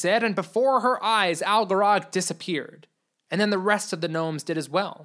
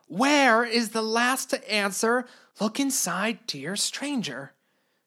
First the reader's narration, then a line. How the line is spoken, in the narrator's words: Lady Clara said the last part with a whisper